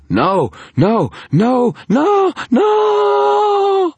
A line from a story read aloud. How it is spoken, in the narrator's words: the guard screamed